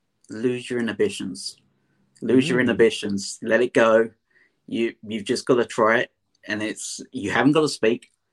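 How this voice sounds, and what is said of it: London Essex accent. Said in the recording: “I'm a Londoner, an Essex boy as such, so I've got a different accent than you guys in America”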